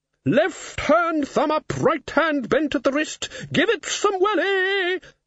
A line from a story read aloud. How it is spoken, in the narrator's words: shouted the horned woman